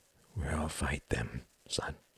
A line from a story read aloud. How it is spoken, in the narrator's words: he murmured